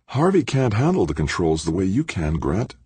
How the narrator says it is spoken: she said, her voice brimming with admiration

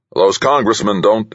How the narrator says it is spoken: Anson snapped

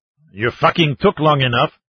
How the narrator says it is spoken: a 30-ish sergeant snarled

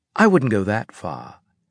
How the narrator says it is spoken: he said in a condescending tone

